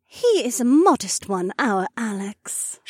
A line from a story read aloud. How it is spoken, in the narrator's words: Shay purred